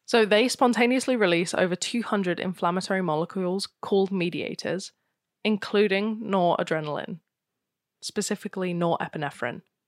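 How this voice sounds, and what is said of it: British RP accent. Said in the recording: “with your accent, I couldn't tell what you're trying to say ... I am RP.”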